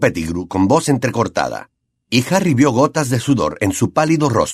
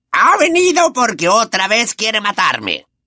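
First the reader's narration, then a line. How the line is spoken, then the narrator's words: Shrieking. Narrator (Spanish): chilló Pettigrew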